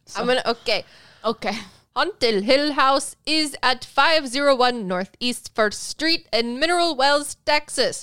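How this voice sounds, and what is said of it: Stereotyped Asian accent impression. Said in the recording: “he just talks in the quintessential cliche Asian way ... my best impersonation”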